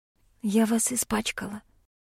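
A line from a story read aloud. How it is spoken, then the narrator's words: Whisper. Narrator (Russian): прошептала я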